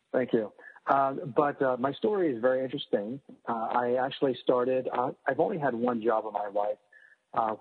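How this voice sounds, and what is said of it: Stuffy, congested, low-energy voice. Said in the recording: “I have a little bit of a cold, uh, so I may be oh. sound a little stuffy and and not as energetic as I usually am.”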